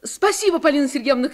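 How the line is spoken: Shouting. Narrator (Russian): крикнула Таня

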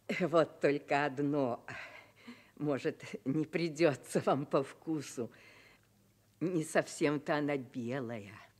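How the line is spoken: Forced laughter. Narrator (Russian): Он сказал, принужденно смеясь

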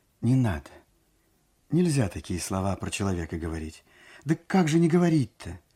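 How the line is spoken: Quiet. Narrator (Russian): сказала тихо

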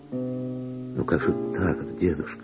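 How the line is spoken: Gentle objection. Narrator (Russian): мягко возразила Вера

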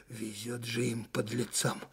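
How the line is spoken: Chilly-voiced major. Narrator (Russian): зябким голосом проговорил штабной майор

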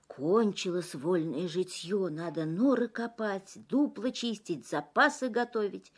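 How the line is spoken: Animals grumbling. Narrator (Russian): Звери лесные ворчат

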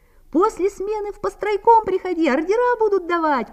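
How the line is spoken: Young man shouting from above. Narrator (Russian): прокричал с лесов молодой строитель

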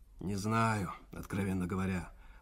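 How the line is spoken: Wheezing. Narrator (Russian): просипел Иван Иванович

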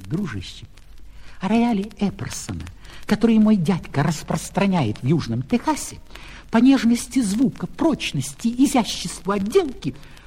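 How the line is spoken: Conductor whispering. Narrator (Russian): кондуктор наклонился к нему и шепнул

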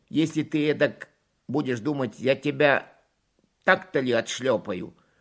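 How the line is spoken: Angry grandmother. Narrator (Russian): Бабушка уже сердится

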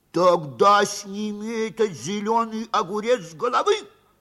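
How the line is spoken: Angry shout. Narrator (Russian): сердито выкрикнул судья Капустный Качан

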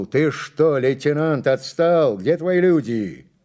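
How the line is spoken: Shout. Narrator (Russian): он крикнул

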